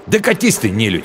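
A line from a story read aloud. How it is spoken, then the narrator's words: Angry snapping retort. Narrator (Russian): Зло огрызнулся он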